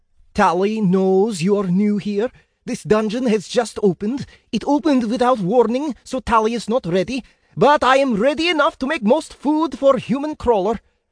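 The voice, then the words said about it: Loud Slavic-accented creature voice. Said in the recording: “his voice louder than I expected. Creature had a Slavic accent. Not quite Russian, but close.”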